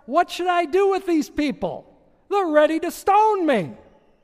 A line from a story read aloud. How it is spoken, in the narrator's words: Moses cried out to the Lord